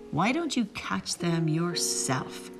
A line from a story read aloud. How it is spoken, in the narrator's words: One Eye hissed